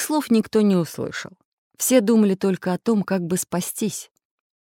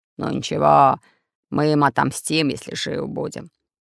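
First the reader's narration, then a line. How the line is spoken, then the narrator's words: Growled. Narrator (Russian): прорычал Буль-Буль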